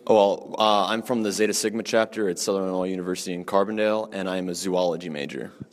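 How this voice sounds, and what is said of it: Radio-style broadcaster voice. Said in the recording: “I love your radio voice. Have you thought about going into radio?”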